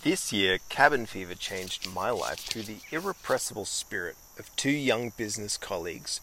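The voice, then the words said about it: Strong Australian accent. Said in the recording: “sounds more Australian than I've ever heard him”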